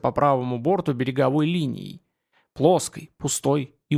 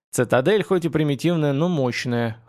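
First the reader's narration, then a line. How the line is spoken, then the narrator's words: Grunting smirk. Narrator (Russian): хмыкнул Бишоп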